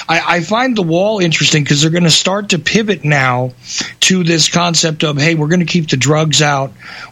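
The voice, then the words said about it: Northern, Canadian-sounding accent. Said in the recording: “I was born on a land slightly north, you can tell probably from my accent”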